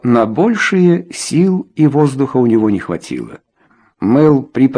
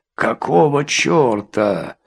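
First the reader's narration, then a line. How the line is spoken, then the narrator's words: Strained, barely audible. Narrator (Russian): выдавил из себя еле слышное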